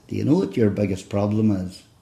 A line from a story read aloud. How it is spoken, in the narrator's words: I said … as gently as I could, I said